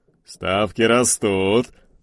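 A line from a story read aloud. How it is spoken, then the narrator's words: Booming laughter. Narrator (Russian): гулко захохотал Рамуальдыч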